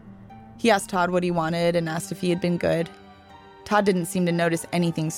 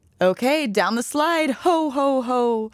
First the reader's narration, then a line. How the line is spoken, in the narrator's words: Todd went laughing